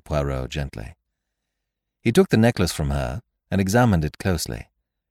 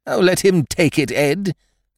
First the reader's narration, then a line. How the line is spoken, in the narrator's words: cried his wife